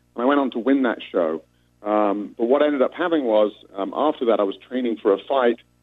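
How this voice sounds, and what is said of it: British accent. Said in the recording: “I represented the UK, of course, as you can tell from my accent.”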